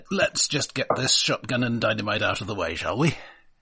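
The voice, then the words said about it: Irish accent drifting into pirate accent. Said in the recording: “my Irish accent has turned into a pirate accent”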